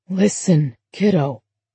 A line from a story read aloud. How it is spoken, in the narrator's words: James whispered in her ear